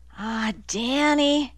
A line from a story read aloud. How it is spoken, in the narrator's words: Annie murmured